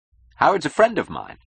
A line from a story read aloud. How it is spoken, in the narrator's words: he said happily